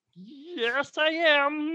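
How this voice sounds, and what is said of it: Kermit the Frog voice. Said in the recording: “that was an incredible impression ... are you Kermit the Frog?”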